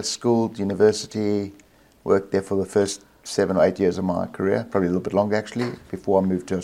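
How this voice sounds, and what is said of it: South African accent. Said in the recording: “accent's not Australian ... The accent is? ... South Africa, born and bred in South Africa”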